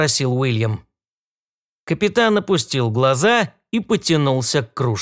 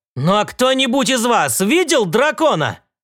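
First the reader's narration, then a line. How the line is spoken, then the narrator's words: Shouted. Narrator (Russian): крикнул он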